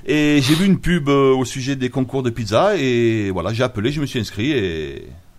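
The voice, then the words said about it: Slight singsong regional accent. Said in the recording (French): “il y a un petit accent. ... Qui chante.”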